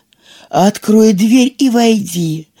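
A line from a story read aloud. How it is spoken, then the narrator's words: Feigned gentle voice. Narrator (Russian): сказал волк таким ласковым голосом, насколько он мог притвориться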